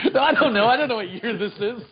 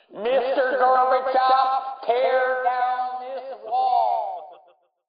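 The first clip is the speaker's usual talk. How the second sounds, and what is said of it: Speech impression. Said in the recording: “I just wanted to do that impression. ... That was good, right?”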